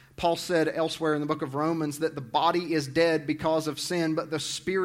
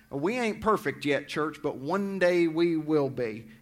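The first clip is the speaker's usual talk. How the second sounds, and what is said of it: Southern accent. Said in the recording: “I brought that southern accent up here with me.”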